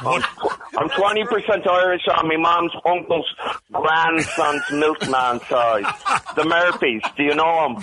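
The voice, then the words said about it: Pure Irish brogue accent. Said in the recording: “guy might have had the greatest accent we've ever had. It was a pure Irish brogue.”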